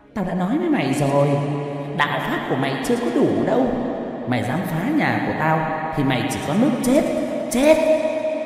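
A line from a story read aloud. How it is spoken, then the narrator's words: Shrill, eerie woman's voice. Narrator (Vietnamese): thầy Tư cười the thé, giọng đàn bà vang lên nói một cách ghê rợn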